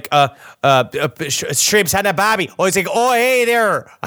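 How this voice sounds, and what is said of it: Poor put-on Australian accent. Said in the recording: “Australian accent ... That is the equivalent of an Outback Steakhouse when it comes to being authentically Australian ... Is that a Midwesterner mixed with an Irish person”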